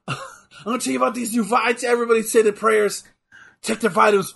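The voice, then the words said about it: Imitates another person's voice. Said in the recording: “a really good Hulk Hogan impression”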